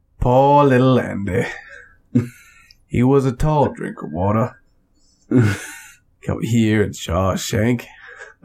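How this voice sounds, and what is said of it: Poor imitation of another person's voice. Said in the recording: “I think I do a pretty good Morgan Freeman ... terrible. You got the cadence, but it's still terrible. Just you. It's you with his cadence.”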